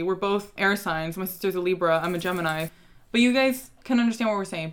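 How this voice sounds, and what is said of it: Valley Girl accent. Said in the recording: “we have a Valley Girl accent ... We really do have a Valley Girl accent”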